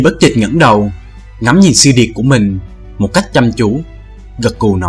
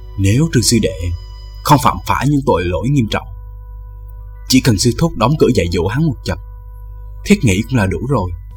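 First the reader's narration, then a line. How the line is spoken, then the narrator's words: Hushed, quiet. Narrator (Vietnamese): Tiêu Dật Tài hạ giọng nói nhỏ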